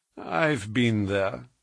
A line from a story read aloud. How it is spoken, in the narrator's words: said he dryly